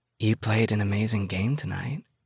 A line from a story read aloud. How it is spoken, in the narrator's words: a husky voice whispers